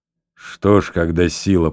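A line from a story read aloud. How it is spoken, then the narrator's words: Soldier's grumble. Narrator (Russian): проворчал солдат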